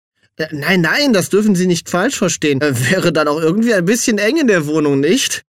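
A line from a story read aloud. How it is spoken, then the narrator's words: Giggling. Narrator (German): kicherte Ye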